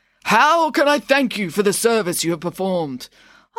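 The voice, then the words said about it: Old man voice. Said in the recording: “You're doing a voice ... I'm doing an old man voice”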